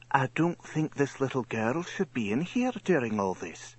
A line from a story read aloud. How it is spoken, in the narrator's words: A nurse leaned over to Johnny and whispered